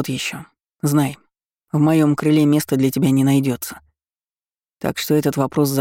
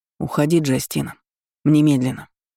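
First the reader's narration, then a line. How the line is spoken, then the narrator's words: Icy command. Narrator (Russian): ледяным тоном приказал ей Эйден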